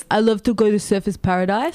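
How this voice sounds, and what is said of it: Put-on accent, not very convincing. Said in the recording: “Can you say it with the accent? ... no, that wasn't very good.”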